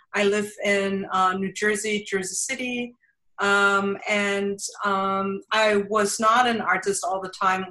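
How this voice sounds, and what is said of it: Thick German accent. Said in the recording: “I have a thick German accent”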